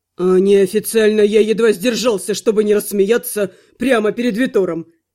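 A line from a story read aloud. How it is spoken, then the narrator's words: Snorted. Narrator (Russian): фыркнул он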